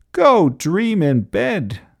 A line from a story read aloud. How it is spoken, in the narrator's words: cried Ernest